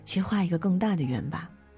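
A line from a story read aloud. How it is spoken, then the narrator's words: Low murmur. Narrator (Chinese): 感觉和新同事格格不入时，爸爸会低声地说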